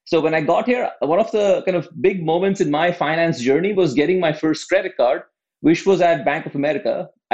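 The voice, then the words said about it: Non-American accent. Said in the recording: “you can probably tell from my accent, I didn't grow up in the US”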